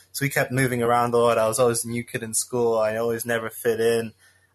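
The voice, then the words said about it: Slight American twang in accent. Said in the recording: “a slight American twang to my accent”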